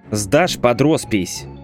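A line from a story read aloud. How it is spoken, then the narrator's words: Angry warning. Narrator (Russian): зло предупредил я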